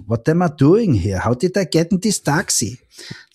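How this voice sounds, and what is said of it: English with Carinthian Austrian accent. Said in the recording (German): “der sagt es mit diesem Kärntner Akzent”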